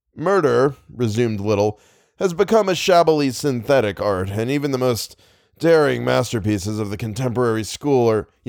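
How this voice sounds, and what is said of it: Reading in a character voice. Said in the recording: “I'm doing the other voice. I'm doing the other voice. I'm doing I'm doing Raven voice.”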